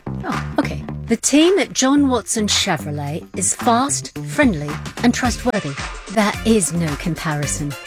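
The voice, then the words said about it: Put-on English accent. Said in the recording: “That customer didn't have an English accent.”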